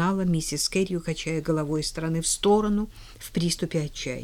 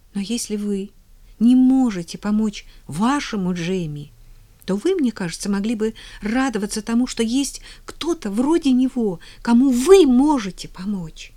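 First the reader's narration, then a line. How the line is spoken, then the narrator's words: Agitated, persuasive. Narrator (Russian): взволнованно убеждала Полианна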